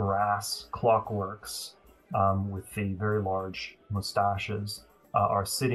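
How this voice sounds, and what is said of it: Usual voice. Nothing is said of it.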